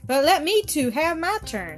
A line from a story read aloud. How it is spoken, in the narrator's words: cried he